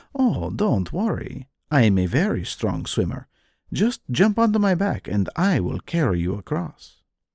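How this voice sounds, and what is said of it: Soothing, gentle storytelling voice. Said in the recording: “in a soothing voice”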